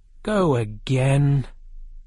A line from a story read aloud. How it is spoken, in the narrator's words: the king said very sadly